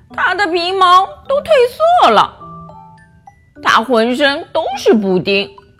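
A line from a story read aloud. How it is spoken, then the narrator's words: Mocking children. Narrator (Chinese): 其他的孩子也在一旁讥笑着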